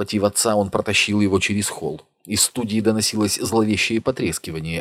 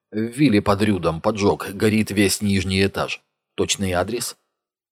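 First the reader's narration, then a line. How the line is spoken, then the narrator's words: Completely calm. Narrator (Russian): Она говорила совершенно спокойно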